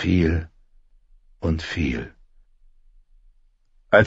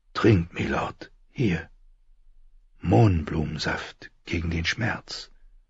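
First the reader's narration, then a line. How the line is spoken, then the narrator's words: Whisper. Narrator (German): flüsterte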